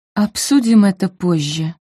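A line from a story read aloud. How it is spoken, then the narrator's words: Forced out. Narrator (Russian): выдавила она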